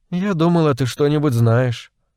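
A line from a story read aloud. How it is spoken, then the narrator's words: Sighing, annoyed. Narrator (Russian): Она вздохнула и добавила с досадой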